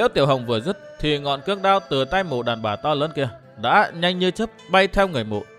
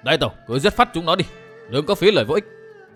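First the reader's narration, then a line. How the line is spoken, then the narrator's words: Shouting from outside. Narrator (Vietnamese): Châu Bưu đứng ở bên ngoài cũng gào lên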